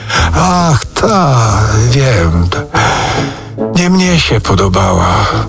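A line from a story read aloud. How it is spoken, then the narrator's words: Sigh. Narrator (Polish): westchnął Rzecki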